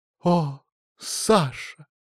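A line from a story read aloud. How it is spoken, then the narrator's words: Sighing. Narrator (Russian): вздохнула бы Настя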